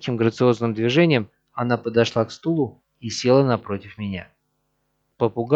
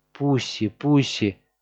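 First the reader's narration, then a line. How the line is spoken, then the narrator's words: Affectionate, gentle. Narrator (Russian): ласково проговорила она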